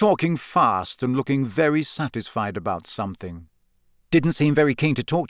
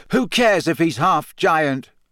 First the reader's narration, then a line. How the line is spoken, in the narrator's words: Harry shouted